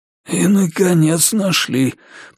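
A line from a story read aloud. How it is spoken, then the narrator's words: Hoarse wheeze. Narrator (Russian): просипел маркиз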